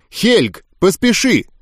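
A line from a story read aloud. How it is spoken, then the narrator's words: Young woman shouting. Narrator (Russian): крикнула девушка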